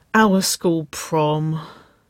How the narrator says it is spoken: she groaned

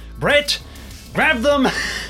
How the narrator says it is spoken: Ernest shouts out

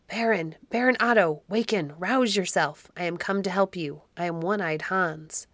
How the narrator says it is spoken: a voice whispered in his ear

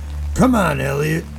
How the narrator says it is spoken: Jack snarled

